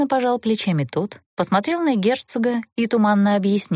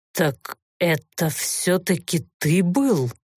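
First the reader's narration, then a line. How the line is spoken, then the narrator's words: Suspicious, through clenched teeth. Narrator (Russian): Подозрительно рассматривая странного гостя, процедил Олторн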